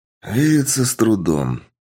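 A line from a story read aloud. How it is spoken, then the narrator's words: Heavy sigh. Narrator (Russian): тяжело вздохнув, ответил я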